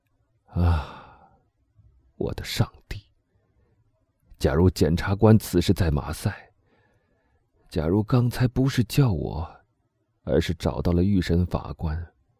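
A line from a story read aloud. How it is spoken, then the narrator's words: Murmuring. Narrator (Chinese): 他喃喃的说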